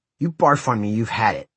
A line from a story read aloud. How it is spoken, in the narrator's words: snarled